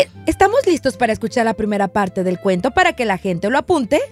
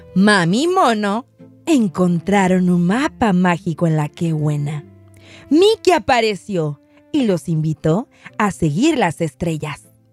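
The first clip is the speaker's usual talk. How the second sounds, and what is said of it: Storyteller narrator voice. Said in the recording (Spanish): “Haré mi voz de narradora.”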